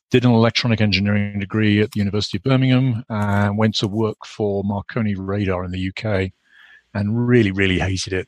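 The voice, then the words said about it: British accent. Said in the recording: “I grew up in the UK, obviously, as you can probably gather from my accent.”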